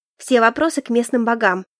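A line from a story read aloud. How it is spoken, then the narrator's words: Snapping retort. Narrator (Russian): огрызнулась я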